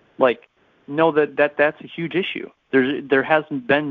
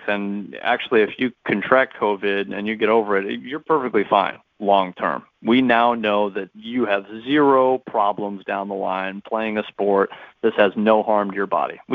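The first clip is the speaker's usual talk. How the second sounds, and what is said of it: Sarcastic delivery. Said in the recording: “I'm being sarcastic when I was saying all that. I know it, sometimes it's hard to tell, but I was being sarcastic”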